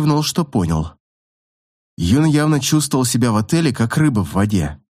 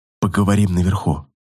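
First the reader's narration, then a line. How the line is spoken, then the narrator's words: Barely audible. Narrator (Russian): Чуть слышно сказал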